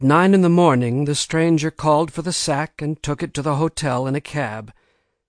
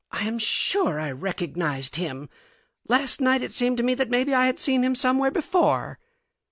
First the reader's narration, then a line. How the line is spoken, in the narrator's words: flushed and a little unsteady on her legs, and gasped out